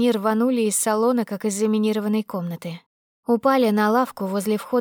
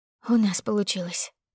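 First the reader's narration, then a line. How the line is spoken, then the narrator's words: Whisper. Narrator (Russian): прошептала Анжела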